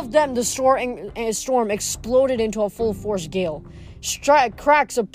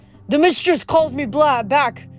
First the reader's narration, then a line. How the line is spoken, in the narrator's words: Dylan shouted with glee